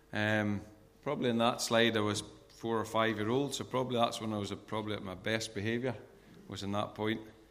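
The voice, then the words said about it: Northern Irish accent, partly Scottish. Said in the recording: “I was born in Northern Ireland. That's why I've got this strange accent ... sometimes it can go Scottish, so it'll be a wee bit mixed”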